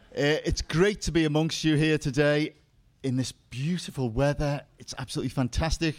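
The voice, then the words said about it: Slight Liverpool accent. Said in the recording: “You may have noticed I have a slight dialect accent. I'm from Liverpool”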